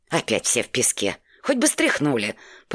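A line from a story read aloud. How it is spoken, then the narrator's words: Grumbling. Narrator (Russian): проворчал он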